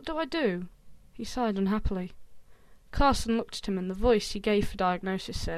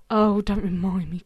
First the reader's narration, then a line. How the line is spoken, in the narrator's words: Carson groaned